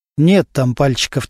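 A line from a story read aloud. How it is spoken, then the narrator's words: Said quietly. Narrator (Russian): тихо сказал Немирович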